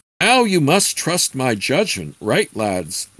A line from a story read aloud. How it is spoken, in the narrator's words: the exultant druid exclaimed with glee